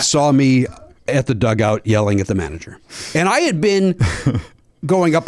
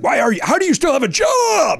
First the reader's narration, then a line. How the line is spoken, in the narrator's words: yelling